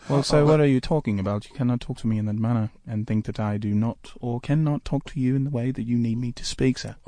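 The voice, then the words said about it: Put-on British accent. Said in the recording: “you don't have a British accent”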